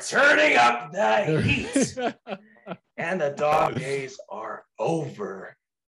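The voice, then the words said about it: Imitates another person's voice. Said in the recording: “my best Mars Luna impression”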